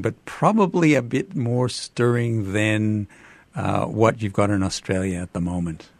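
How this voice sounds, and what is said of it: Canadian accent. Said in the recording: “as you can tell from my accent, Canadian”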